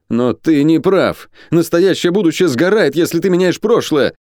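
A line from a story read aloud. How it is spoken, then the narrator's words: Shouting. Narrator (Russian): прокричал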